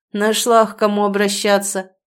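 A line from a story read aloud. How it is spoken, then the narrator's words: Snorting. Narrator (Russian): фыркнул Сеня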